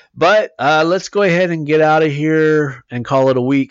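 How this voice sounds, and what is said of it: Strained, fading voice. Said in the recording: “I'm already losing my voice.”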